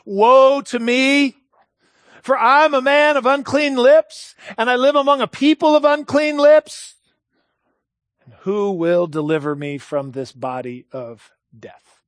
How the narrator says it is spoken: the weary groans of Isaiah and Paul as they cried out

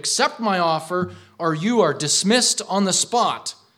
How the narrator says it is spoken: In great anger, exclaimed

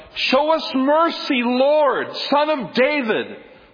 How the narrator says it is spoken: they yell out

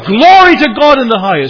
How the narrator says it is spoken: the angels rejoiced in God and cried

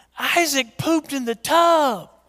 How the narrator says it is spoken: I hear him just yell

